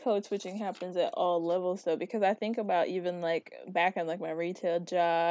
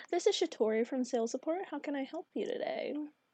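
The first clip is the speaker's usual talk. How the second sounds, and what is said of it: Polite customer service phone voice. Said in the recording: “give me a customer service voice. I think you just did”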